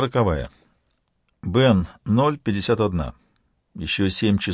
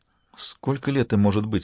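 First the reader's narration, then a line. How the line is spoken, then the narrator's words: Plain. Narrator (Russian): спросила Арецу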